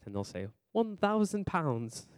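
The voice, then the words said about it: Bad put-on British accent. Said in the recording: “that was a horrible British accent”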